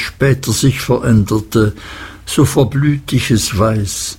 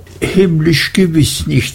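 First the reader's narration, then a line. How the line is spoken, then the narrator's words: Laughing. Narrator (German): sagte sie lachend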